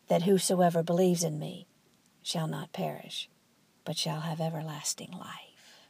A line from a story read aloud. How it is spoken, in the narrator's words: he whispered in Donato's ear